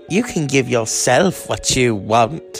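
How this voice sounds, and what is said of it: Put-on British accent. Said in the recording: “with a British accent”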